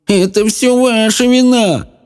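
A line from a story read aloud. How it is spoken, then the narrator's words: Man whimpering. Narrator (Russian): Захныкал мужчина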